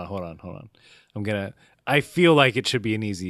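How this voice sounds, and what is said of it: Usual voice. Nothing is said of it.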